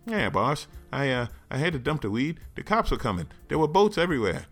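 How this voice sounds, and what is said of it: Put-on 1930s gangster accent. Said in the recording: “a semi-30s gangster accent”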